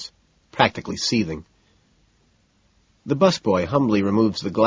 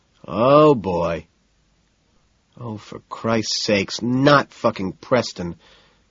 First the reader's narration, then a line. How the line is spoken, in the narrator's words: Price sighs